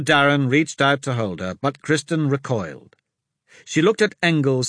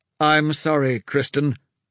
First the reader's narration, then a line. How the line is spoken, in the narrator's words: her father said